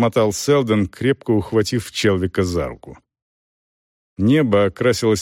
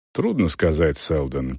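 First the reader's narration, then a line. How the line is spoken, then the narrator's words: Calm reply. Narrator (Russian): как всегда спокойно отозвался Челвик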